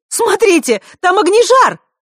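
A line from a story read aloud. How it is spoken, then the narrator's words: Young woman shouting. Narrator (Russian): выкрикнула девушка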